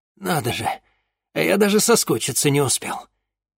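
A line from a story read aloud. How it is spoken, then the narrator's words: Strangled muttering. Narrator (Russian): сдавленно пробормотал Денис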